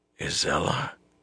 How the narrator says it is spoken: he said hoarsely

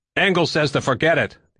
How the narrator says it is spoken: the other clean man shouted

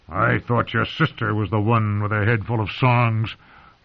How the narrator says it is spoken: the hound growled

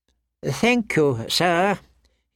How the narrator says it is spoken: murmured

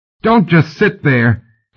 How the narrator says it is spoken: he yelled at Gentry

